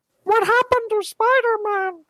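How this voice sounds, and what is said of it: Elmo-like six-year-old child voice. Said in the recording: “the kid's being played by Elmo now... This is terrifying... impersonation of a 6-year-old child”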